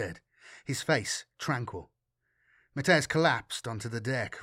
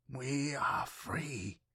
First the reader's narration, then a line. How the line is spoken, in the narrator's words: the navigator whispered through raking gasps